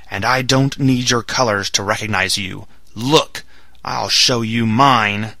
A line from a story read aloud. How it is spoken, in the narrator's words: he shouted in his powerful voice